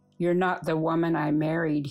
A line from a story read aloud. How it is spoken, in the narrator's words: he said